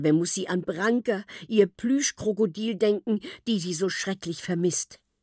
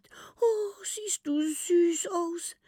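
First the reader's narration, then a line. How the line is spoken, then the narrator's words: Whisper. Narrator (German): flüstert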